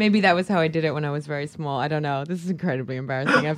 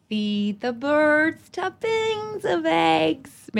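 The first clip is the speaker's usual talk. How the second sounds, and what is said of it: Singing in a put-on American accent. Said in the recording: “I'll do it in my in my American accent.”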